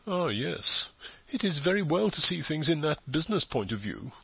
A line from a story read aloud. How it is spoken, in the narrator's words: murmured Eustacia, with a smothered fire of feeling